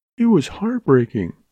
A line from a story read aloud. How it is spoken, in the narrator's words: she half sobbed